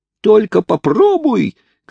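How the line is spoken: Choked, strangled shout. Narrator (Russian): кричал Хайрам, насколько это было для него возможно, ибо Бенджамин крепко держал его за глотку

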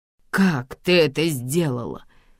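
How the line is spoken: Hoarse rasp. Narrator (Russian): хрипит он

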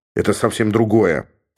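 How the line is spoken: Grumble. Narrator (Russian): проворчал Георг

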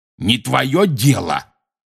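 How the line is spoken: Barking snap. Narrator (Russian): рявкнул Хагрид

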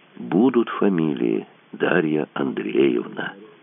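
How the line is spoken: Honeyed voice. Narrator (Russian): майор медоточивым голосом сказал

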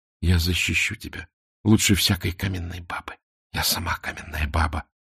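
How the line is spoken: Passionate whisper. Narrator (Russian): страстно шептала Мона

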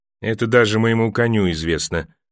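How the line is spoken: Dry. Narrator (Russian): сухо молвил Тирион

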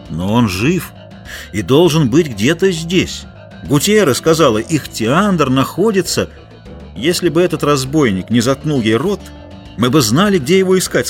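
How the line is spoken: Plain. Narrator (Russian): сказал Кристо

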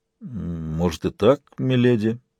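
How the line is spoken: Uncertain. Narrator (Russian): неуверенно ответил Дунк

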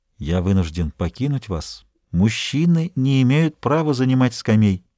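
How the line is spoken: Whisper. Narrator (Russian): Дюруа прошептал

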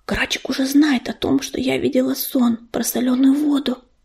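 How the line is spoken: Whispering in ear. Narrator (Russian): шепнула на ухо ежевике ласточка

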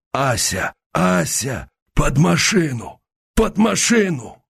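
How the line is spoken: Hoarse wheezing. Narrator (Russian): Он хрипел в эту пустоту

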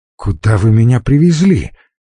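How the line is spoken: Frightened man. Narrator (Russian): испуганно отреагировал Печенков

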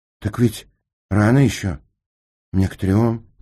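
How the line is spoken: Dejected voice. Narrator (Russian): упавшим голосом сказал Сенька

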